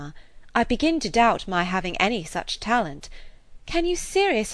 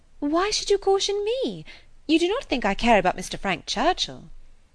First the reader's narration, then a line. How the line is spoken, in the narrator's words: cried Harriet, colouring and astonished